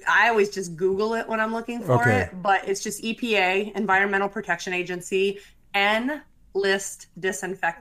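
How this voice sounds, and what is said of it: Midwestern American accent. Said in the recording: “people tell me I have a Midwest accent”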